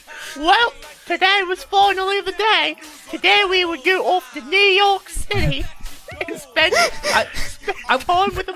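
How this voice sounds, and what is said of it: Put-on accent while reading aloud. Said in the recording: “Are you gonna hold this accent through that?”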